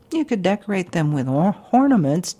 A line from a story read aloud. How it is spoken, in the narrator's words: Jack chuckled